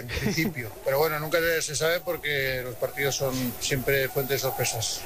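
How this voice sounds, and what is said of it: Strong Aragonese (maño) accent. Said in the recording (Spanish): “al principio me ha salido acento mañito. ... Pero mucho, bastante.”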